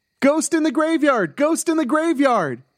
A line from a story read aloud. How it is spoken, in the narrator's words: she called out again